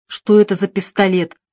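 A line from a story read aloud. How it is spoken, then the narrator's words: Angry. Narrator (Russian): зло сказал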